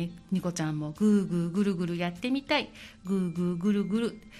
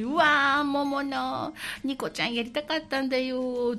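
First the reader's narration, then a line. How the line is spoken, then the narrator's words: Two people sobbing loudly. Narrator (Japanese): って2人で大泣きの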